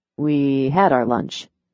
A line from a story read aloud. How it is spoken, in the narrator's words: Philip muttered